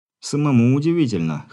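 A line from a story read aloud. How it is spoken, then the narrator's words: Young man's snort. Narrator (Russian): хмыкнул парень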